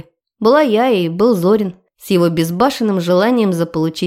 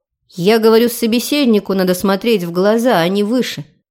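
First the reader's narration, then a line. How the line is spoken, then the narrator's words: Angry explanation. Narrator (Russian): Сердито пояснила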